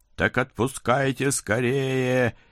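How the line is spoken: Hysterical hungry howl. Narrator (Russian): истерически взвыла какая-то особенно голодная чертовка

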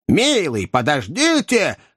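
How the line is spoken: Young woman shouting. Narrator (Russian): крикнула молодая леди

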